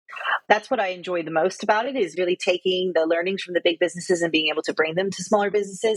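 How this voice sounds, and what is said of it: American accent with Australian-British influence. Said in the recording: “you can hear from my accent... I'm American, but I spent 5 years in Australia and coming up to almost 7.5, 8 years now in the UK... we haven't quite drummed the accent out of you yet”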